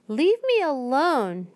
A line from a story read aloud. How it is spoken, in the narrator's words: Jane cried